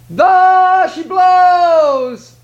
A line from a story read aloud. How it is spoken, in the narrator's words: he cried